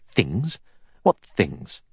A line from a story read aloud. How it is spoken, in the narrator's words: Armstrong said sharply